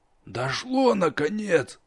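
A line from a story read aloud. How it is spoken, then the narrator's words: Spiteful, satisfied, through teeth. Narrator (Russian): со злым удовлетворением процедил учитель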